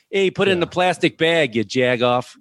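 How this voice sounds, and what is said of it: Heavy Chicago accent, flat A's. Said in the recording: “heaviest Chicago accent... We're very flat on our A's and we pronounce the R's”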